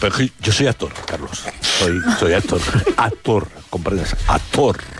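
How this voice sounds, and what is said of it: Put-on theatrical actor voice. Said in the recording (Spanish): “poner voz de actor”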